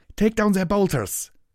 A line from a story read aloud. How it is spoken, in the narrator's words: shouted over the clamor of battle